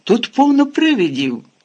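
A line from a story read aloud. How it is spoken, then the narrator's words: Exclamation. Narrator (Ukrainian): вигукнув Рон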